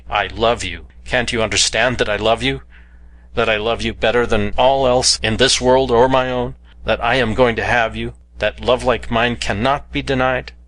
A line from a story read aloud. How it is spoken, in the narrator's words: I cried